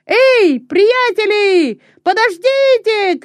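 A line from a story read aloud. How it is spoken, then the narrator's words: Shout. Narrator (Russian): кричал он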